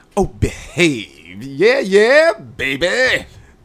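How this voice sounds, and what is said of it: Bad Austin Powers impression. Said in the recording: “Austin Power ... that was a really bad imitation”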